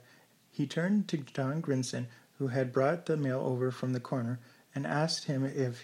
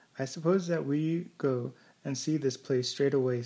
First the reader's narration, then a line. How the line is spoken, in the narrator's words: said Mrs